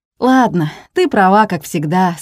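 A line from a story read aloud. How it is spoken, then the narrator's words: Laughing. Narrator (Russian): смеялся Алик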